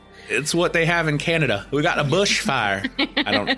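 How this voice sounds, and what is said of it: Poor attempt at Canadian accent. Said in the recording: “That's not even a Canadian accent. I'm bad at this.”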